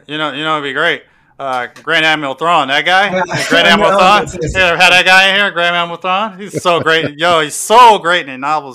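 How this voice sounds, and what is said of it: Imitates another person's voice. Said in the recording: “my Crib impression”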